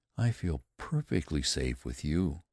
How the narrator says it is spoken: Helen said softly

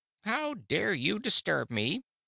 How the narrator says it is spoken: it said in a peevish voice

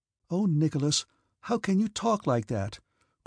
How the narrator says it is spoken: cried Sonia, hardly able to conceal her delight

